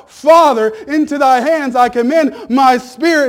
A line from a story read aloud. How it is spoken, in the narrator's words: he died, he cried out